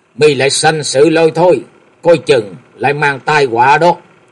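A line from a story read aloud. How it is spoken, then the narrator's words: Old man snapping irritably. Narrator (Vietnamese): Lão già gắt gỏng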